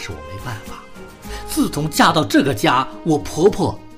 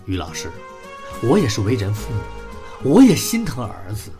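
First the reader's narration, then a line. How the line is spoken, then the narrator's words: Sighing mother. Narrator (Chinese): 小五的妈妈长叹了一口气，说道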